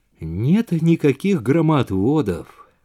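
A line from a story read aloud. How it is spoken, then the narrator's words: Thoughtful. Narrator (Russian): задумчиво произнес Роджер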